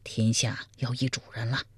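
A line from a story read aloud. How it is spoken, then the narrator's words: Quiet. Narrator (Chinese): 苗逊小声说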